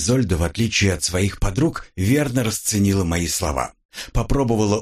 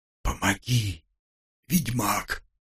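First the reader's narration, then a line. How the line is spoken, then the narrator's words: Whispered. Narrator (Russian): прошептала Изольда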